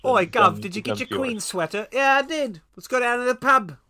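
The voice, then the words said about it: Poor put-on British accent. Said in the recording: “Your accent is almost as good as Cole's American accent.”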